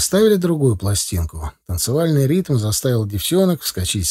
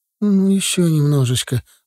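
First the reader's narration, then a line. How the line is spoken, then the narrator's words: Pleading. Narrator (Russian): взмолилась она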